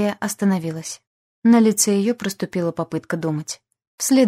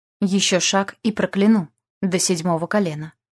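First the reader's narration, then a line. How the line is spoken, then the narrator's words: Cold. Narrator (Russian): произнесла холодно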